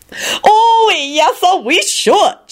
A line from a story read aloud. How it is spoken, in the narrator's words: she screeched